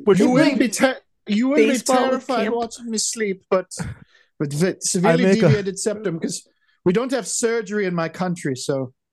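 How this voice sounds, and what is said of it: Exaggerated vague foreign accent. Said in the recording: “The accent you guys are doing is much. I was like, "Where's this gentleman supposed to be?" ... Very far away. ... Somewhere in the Alps.”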